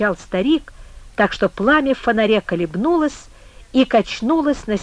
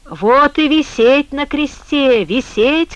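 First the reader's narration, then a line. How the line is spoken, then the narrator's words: Man shouting. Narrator (Russian): кричал бобыль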